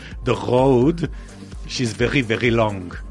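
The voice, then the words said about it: Attempted Israeli accent with rolling R. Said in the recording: “a rolling R, Israeli style ... I'm hearing Israeli accent ... Doesn't work”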